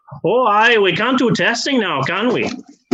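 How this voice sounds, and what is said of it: Poor put-on Irish accent. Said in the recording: “the Irish accent because I'm just really bad at it”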